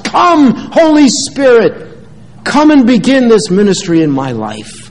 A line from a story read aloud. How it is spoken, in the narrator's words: cried out with fervent hearts